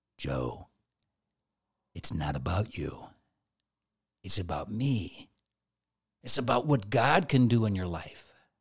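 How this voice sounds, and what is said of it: Whispered voice. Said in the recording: “in a whispered voice”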